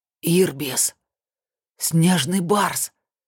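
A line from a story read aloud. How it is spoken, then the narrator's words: Admiring whisper. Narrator (Russian): восхищенно прошептал Сергей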